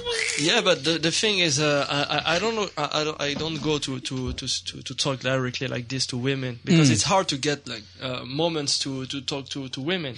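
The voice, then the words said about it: French accent. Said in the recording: “Did you hear he has a French accent?”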